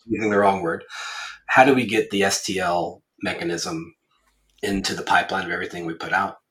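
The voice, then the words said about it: Sick-sounding voice. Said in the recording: “I am a little bit ill, as you can probably tell from my voice.”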